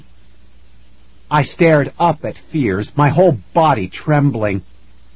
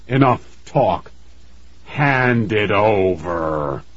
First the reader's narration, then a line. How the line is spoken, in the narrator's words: he growled